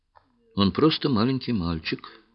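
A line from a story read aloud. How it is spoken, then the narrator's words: Calm but heartfelt. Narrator (Russian): спокойно, но с чувством ответила Чиндамани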